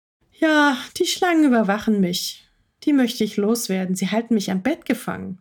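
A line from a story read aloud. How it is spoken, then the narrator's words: Very sad. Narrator (German): sagte Maya sehr traurig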